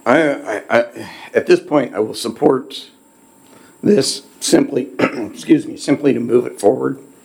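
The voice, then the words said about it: Hoarse, failing voice. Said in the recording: “I'm losing my voice too.”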